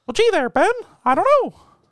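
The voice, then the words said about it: Cartoon mouse character voice. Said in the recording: “I do Mickey Mouse a lot. ... Oh, that's pretty good.”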